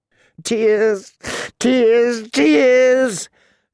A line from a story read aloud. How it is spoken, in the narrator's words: she sobbed hysterically